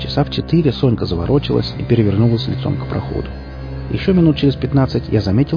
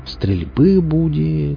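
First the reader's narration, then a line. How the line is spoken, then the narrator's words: Drawling. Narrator (Russian): протянул я, особо не рассчитывая на ответ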